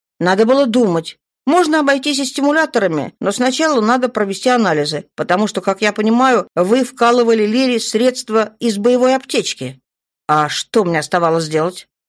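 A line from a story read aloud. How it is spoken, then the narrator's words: Fearful growl. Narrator (Russian): В рычании Рогрика Даши слышится страх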